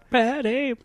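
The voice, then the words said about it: Imitates a film character's voice. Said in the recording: “That's a pretty good impression.”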